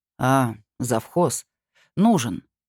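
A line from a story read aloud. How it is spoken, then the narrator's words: Calm. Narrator (Russian): спокойно ректор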